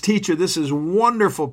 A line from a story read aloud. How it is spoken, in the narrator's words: Peter exclaimed